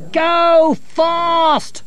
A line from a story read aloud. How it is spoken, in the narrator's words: they shouted